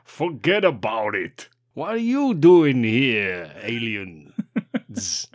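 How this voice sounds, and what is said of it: Put-on New York accent. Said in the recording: “That Billy's got a New York accent.”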